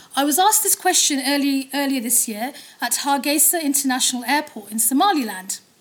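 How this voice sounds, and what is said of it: Harry Potter-style British accent. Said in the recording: “my Harry Potter accent”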